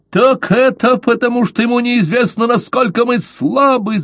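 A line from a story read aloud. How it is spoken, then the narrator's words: Shouting. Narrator (Russian): закричал Каузак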